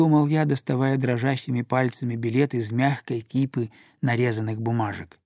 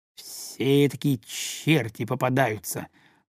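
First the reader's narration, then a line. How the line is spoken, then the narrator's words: Muttered. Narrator (Russian): пробормотал он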